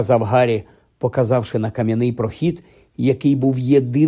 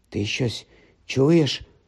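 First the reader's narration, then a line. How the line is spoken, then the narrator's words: Whispered. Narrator (Ukrainian): прошепотів Рон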